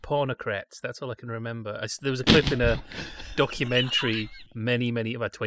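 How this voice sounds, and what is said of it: Usual voice. Nothing is said of it.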